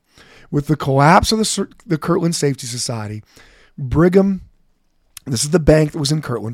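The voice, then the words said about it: Slightly raspy voice. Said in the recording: “my voice is a little raspy ... you can listen to me sounding worse than I normally do”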